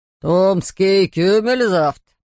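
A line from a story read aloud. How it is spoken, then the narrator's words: Booming voice. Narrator (Russian): прогудел хозяин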